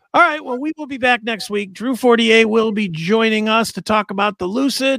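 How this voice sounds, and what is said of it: Strained, worn-out voice. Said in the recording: “My voice, I'm sure you can hear my voice is going. 4 hours of talking is enough.”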